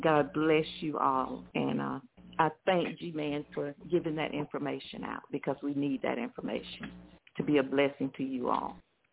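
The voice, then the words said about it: Southern US twang accent. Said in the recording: “I can hear that southern twang.”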